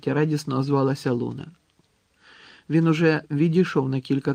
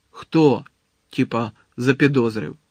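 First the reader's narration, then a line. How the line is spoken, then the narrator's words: Angry question. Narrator (Ukrainian): сердито запитав Малфой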